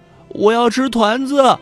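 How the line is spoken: Crying. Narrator (Chinese): 爸爸还是哭着说

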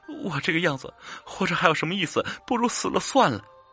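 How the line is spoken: Crying. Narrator (Chinese): 兰儿哭泣着跟元朝说

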